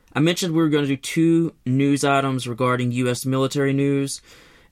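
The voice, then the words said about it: Rough, congested voice. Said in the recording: “my voice sounds a little rough. I've either dealing with a cold or something worse or sinuses.”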